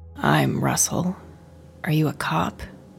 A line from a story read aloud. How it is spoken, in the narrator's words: he asked, his voice dry and cracked